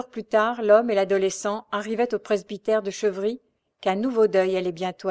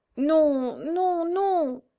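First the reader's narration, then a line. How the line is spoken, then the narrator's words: Trembling stammer. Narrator (French): bégaya le fils de Jeanne Fortier avec un tremblement de tout son corps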